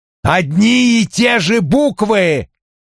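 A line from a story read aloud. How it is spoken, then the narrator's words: Shouted. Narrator (Russian): выкрикнул Коули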